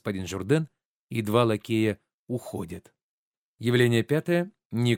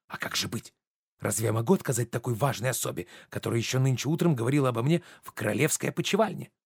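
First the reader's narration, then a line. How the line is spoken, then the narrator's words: Quiet. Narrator (Russian): Журден тихо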